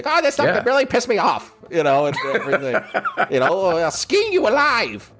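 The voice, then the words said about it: Gruff old man impression. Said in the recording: “that's a good impression”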